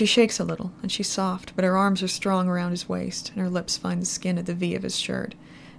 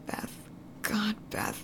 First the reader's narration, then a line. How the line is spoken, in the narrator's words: buries his face in her hair and whispers